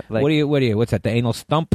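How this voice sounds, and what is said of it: Put-on New York accent. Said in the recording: “But you do it with more of the New York accent.”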